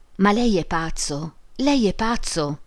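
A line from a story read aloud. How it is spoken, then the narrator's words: Exclaimed with trilling giggles. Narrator (Italian): esclamò Emma fra risatine trillanti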